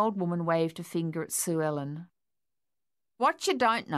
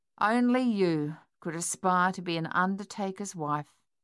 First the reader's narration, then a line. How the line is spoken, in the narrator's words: Sonia said flatly